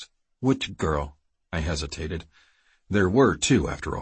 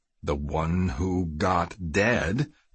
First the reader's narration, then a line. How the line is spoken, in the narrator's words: Kiefer said slowly